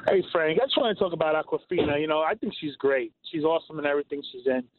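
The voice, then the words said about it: New York accent. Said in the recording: “you hear my accent. I have like a New York accent ... I know I sound like that”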